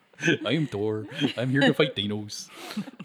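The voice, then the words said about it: Thor in a Norwegian accent. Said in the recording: “Shouldn't he have a Norwegian accent?”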